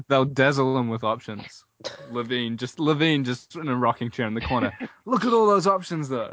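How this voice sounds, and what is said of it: Speaks with a noticeable accent. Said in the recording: “I love the way you just said dazzle. It sounded like dazzle for a second ... I'm not mocking your accent, I'm finding I love it.”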